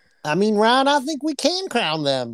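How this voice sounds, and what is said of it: Put-on Southern accent. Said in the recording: “The accent? ... when you get south or talk south about a southern team, you can just get an accent going”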